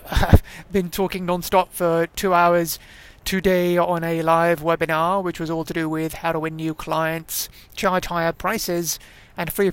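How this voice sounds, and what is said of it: Slightly hoarse voice. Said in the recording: “excuse me if I'm a bit hoarse”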